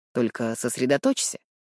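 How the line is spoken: With a snort. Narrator (Russian): хмыкнув, произносит он

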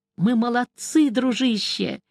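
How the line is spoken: Hoarse speech. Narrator (Russian): хрипло сказал кто-то из нас

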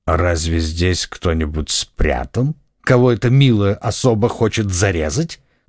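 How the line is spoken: Mocking, contemptuous. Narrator (Russian): спросил лорд Винтер своим насмешливым, презрительным тоном

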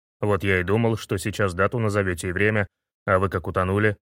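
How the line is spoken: Man grumbling. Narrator (Russian): пробурчал мужик

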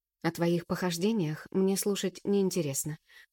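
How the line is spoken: Weary interruption. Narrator (Russian): уставшим тоном перебиваю я

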